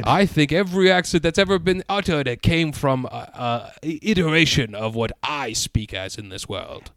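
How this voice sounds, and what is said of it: Inconsistent, shifting put-on character accent. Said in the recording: “Your accent has shifted a couple times over the course of this.”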